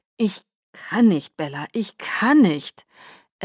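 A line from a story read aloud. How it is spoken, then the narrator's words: Groaning in agony. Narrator (German): Er stöhnte voller Qual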